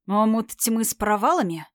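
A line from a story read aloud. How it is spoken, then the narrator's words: Through gritted teeth. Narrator (Russian): процедил сквозь зубы Тайрон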